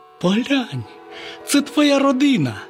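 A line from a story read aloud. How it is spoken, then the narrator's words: Exclaimed. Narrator (Ukrainian): Славко вигукнув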